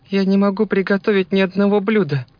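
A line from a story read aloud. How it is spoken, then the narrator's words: Sobbing speech. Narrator (Russian): всхлипывая, заговорила она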